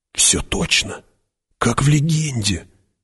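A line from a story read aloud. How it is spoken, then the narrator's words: Whisper. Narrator (Russian): прошептал кто-то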